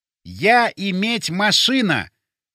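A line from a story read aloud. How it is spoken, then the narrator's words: Loud, deliberate, word by word. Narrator (Russian): громко и раздельно проговорил я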